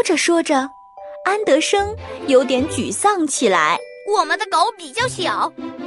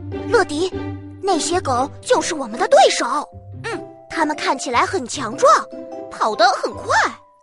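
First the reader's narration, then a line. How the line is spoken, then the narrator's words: Soft, quiet. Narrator (Chinese): 安德生 轻声地说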